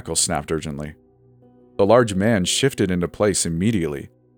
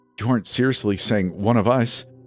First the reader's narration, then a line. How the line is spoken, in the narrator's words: Jesse stammered